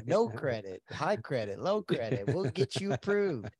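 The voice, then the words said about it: Used car salesman pitch voice. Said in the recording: “you sound like a used car dealer”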